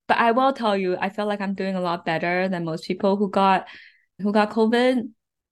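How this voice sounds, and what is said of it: Softer, slightly strained sick voice. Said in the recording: “my voice sounds a little bit weird than normal, a little bit softer than normal ... stuck at home, sick ... tested positive for COVID”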